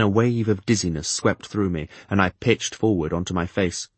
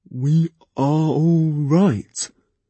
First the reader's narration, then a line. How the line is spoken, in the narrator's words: Thick asked me miserably